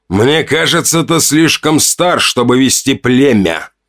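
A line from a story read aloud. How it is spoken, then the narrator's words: Growling. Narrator (Russian): прорычал он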